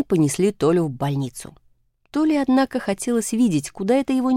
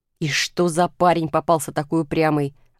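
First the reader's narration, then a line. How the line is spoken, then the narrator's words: Orderly's grumbling. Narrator (Russian): ворчал санитар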